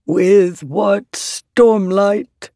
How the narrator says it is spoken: One asked, booming voice becoming more ordinary

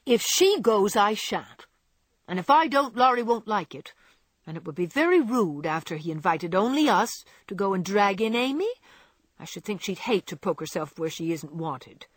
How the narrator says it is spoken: said Joe crossly, for she disliked the trouble of overseeing a fidgety child when she wanted to enjoy herself

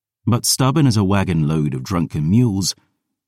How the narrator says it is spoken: she sighed

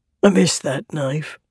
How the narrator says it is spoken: he said with a grunt

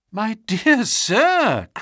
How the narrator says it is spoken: cried Holmes

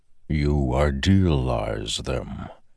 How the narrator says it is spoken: said a distant voice in his head, like rumbling thunder

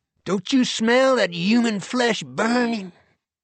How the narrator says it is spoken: One agent, he claimed, had sniffed the air and cried

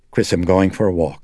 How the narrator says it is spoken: said icily

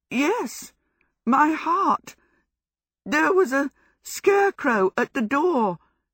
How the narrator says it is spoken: Sophie gasped

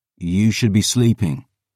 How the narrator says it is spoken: I said

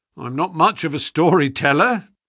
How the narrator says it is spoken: said our visitor, nervously

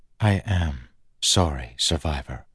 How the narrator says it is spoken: Chris said softly

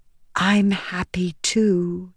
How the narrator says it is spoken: Venli whispered

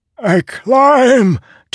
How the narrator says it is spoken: Tuco shouted, ragged

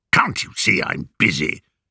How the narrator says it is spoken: grunted

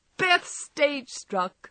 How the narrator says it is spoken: cried Meg

